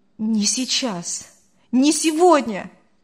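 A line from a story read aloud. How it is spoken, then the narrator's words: Exclaiming. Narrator (Russian): воскликнул Артур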